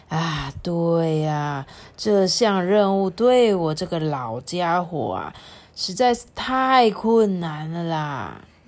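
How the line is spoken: Sighing old grandfather. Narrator (Chinese): 鼹鼠爷爷也叹了一口气说

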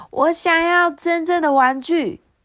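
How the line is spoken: Happy shout. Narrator (Chinese): 菲比高兴的大喊

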